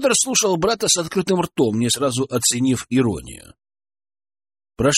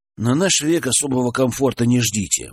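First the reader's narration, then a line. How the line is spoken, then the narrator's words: Gloomy. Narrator (Russian): мрачно спрогнозировал Денис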